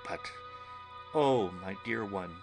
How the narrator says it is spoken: he pleaded

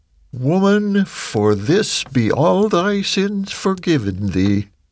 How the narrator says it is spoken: He exclaimed

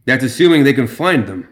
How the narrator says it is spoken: Bridger said

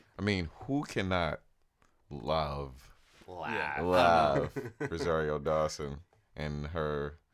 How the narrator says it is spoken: I laugh

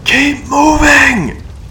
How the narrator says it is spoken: the voice in her head shouted at her

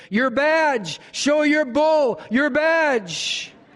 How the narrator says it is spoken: He yelled at the top of his lungs to the officer

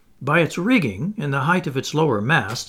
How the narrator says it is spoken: said the Canadian

